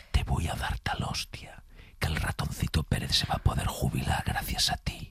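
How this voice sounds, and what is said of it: Menacing whisper. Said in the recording (Spanish): “susurrada ... hicimos el AZMR, que es en susurro, que da mucho más miedo cuando te lo dices susurrado”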